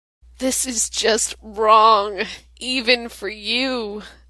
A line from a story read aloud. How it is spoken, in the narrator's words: Sam groans